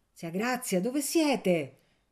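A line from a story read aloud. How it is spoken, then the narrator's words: Shouted. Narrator (Italian): gridò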